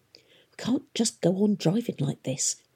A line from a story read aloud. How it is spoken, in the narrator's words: Catherine heard one of her servants mutter